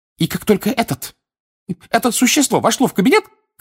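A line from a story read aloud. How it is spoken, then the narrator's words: Shouted. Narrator (Russian): крикнула она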